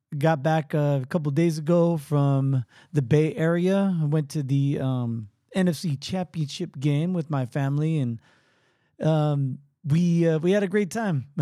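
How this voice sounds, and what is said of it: Slightly weak, strained voice. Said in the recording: “my voice is still a little weak um, from that event ... most of the yelling came in the third quarter”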